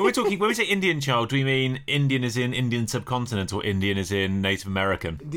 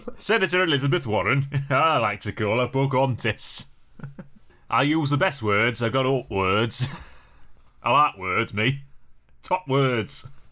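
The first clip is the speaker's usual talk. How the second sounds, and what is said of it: Imitates another person's voice. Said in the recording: “Donald Trump's already done it. ... I didn't realise Donald Trump was from Skipton.”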